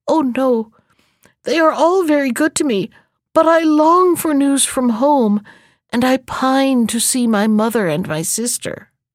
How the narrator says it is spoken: She burst into fresh tears and answered between her sobs

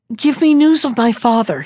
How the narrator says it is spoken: he replied, rather nervously

